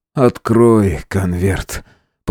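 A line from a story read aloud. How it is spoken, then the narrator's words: Lifeless request. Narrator (Russian): попросил Фауст безжизненным голосом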